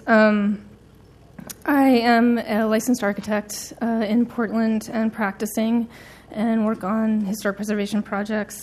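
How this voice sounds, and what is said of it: Sick, strained voice. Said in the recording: “I'm a little under the weather, so I apologize for my voice.”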